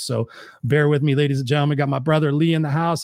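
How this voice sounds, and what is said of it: Slightly hoarse voice. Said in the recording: “I am a little hoarse today. I've been talking all day”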